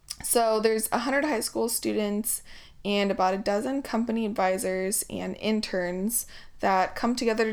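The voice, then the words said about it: Hoarse, strained voice. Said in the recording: “Gosh, I'm losing my voice here.”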